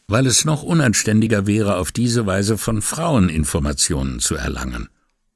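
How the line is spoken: Calm answer. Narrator (German): antwortete ruhig

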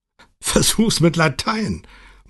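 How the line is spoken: Laughing. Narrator (German): meinte Sergio lachend

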